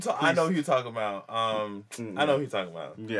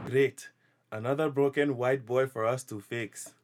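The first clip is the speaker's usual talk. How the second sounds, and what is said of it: Put-on Wakandan movie accent. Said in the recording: “your accent actually sounded better than what some of them.”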